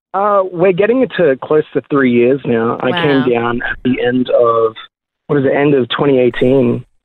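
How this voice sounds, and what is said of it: Australian accent. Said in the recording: “Look at that Aussie accent.”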